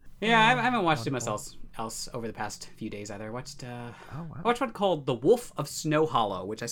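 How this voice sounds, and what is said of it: Usual voice. Nothing is said of it.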